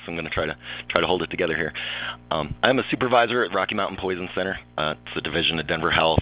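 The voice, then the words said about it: Rough, strained voice. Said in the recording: “Sounding a little rough today. I do apologize for my voice.”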